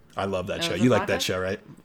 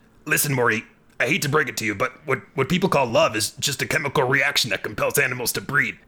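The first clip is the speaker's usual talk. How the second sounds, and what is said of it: Good Rick Sanchez impression. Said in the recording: “Rick Sanchez ... How was that impression? ... Well, it was actually really good.”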